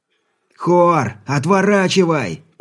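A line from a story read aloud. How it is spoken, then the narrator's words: Shouted. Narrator (Russian): прокричал Алексей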